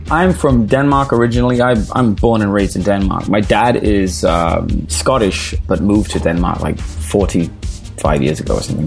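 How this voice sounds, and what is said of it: Mixed Danish and British accent. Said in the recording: “my accent is all messed up ... I was trying to place your accent ... I wasn't expecting you to sound like that”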